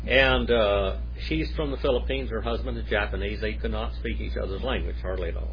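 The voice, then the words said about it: Oklahoma accent. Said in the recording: “they're learning it with an Oklahoma accent. It's not quite the Queen's English. ... I always throw a little Oklahoma”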